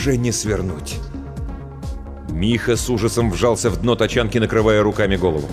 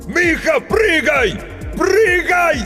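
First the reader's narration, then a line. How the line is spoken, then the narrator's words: Desperate, exhausted shout. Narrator (Russian): Из последних сил закричал Грицко, уже понимая, что поздно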